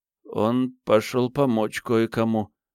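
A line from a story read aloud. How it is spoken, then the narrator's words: Mumbled. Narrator (Russian): промямлил Эндрю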